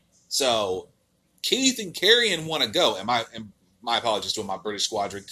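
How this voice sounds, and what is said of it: Usual voice. Nothing is said of it.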